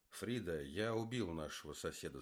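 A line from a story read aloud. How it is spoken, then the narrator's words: Calm. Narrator (Russian): сказал он спокойно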